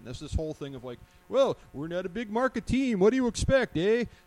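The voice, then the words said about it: Put-on hockey accent. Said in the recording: “I don't know why I'm doing a hockey accent for that.”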